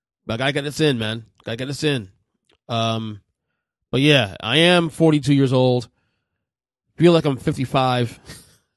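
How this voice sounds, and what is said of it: Tired-sounding voice. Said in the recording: “if I sound tired, I am really tired”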